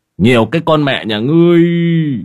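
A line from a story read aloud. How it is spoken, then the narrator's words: Wailing, sobbing. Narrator (Vietnamese): Lão Đạo Huyền gào khóc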